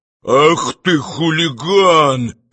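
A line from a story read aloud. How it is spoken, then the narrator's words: Suffering hoarse wheeze. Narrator (Russian): страдая искренно засипел швейцар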